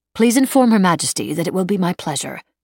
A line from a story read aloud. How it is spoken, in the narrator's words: she said firmly